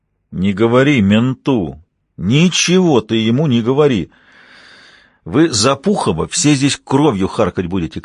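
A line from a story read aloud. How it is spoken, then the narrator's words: Shout. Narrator (Russian): крикнул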